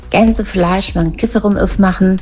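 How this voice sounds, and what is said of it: Put-on Saxon German accent. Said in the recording (German): “Der schlimmste Dialekt, den es, glaube ich, gibt, das ist der sächsische.”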